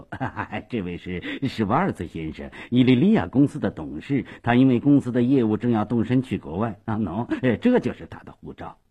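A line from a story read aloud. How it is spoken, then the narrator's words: Hurried, cheerful grin. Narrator (Chinese): 斯瓦索耶忙笑嘻嘻地说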